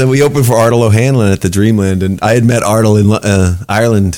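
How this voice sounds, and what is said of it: Usual voice. Nothing is said of it.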